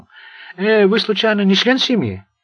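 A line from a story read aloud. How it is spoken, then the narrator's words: High, sharp cry. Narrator (Russian): вскрикнула высоким резким голосом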